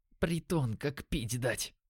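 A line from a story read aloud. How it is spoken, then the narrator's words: Disgusted whisper. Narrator (Russian): прошептал Димон с отвращением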